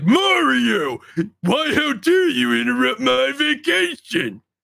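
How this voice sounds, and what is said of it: Rough Bowser character voice. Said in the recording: “This is a spot on impersonation ... Pretty rough.”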